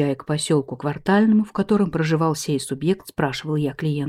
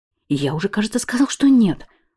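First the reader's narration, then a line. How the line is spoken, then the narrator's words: Irritated reply. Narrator (Russian): раздраженно ответил Анатолий Степанович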